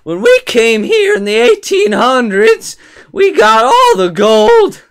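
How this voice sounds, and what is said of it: Old-timey prospector character voice. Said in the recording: “I'm talking like a prospector.”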